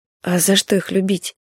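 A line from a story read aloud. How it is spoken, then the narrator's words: Embarrassed mumble. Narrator (Russian): пробормотала Павла смущенно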